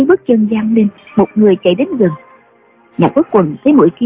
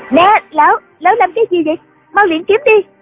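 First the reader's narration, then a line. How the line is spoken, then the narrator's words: Young woman's panicked scream. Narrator (Vietnamese): Bỗng sau lưng lão có tiếng một thiếu nữ la lên thất thanh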